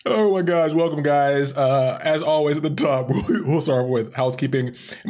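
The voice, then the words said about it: Raspy, strained voice. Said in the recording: “My voice is a bit shot... pardon me if I come a little too raspy”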